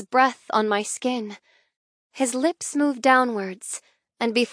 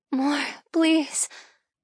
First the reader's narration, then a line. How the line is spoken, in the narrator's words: I mumble incoherently